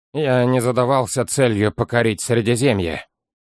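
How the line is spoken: Cold reply. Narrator (Russian): холодно ответил Олмер

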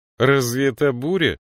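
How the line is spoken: Mocking. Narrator (Russian): насмешливо сказала Мириамель

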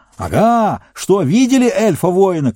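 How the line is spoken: Shout. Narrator (Russian): кричал он

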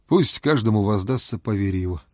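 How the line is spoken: Exhausted mutter. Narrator (Russian): пробормотал Фома, чувствуя себя так, будто неделю подряд ворочал тяжелые камни

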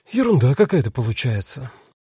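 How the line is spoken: Sighing. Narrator (Russian): вздохнула Рут

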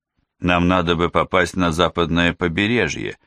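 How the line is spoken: Plain. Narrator (Russian): сказал турк

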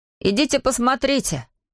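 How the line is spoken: Shouted from a distance. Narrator (Russian): крикнул из сарайчика Эйден

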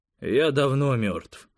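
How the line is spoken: Cold. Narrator (Russian): холодно сказал Костя

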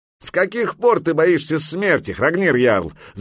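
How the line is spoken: Shouting. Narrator (Russian): закричал Грейпюр

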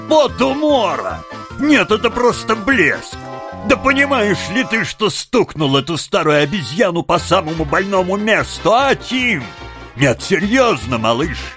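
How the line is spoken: Breathless through laughter. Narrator (Russian): Задыхаясь от хохота, он еле выговорил

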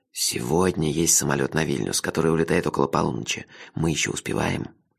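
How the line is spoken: Urgent whisper. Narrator (Russian): горячо зашептал он

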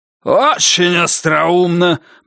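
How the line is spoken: Growling. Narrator (Russian): прорычал Бакли

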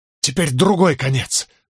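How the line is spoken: Breathed out. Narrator (Russian): выдохнул я

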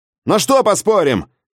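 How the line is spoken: Shout into darkness. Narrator (Russian): крикнул я в темноту

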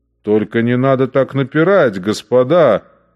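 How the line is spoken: Yelling. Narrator (Russian): орал Штейнбреннер

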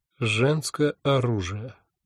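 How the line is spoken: Gloomy. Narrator (Russian): мрачно сказала она

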